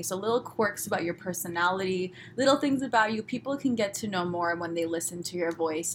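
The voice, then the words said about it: Fast-talking Los Angeles Valley accent. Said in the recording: “you really talk fast. Or you pronounce your words specifically... I'm from Los Angeles. I'm sorry, I talk this way... I live in the valley of Los Angeles”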